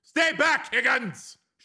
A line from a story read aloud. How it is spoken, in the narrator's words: shouted Breck